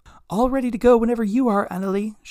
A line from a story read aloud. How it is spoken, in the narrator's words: she shouted up to the helm